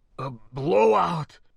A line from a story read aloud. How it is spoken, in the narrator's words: he gasped hoarsely, the universal terror of pressure loss rising like a devil in his mind